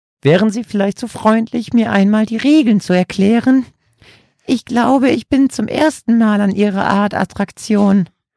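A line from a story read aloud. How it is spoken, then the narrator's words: Elderly woman squeaking. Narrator (German): quiekte die ältere Dame, die kaum über den Tresen gucken konnte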